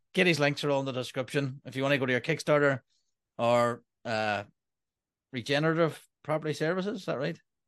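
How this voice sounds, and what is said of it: Fancy-sounding accent. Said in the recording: “your fancy accent”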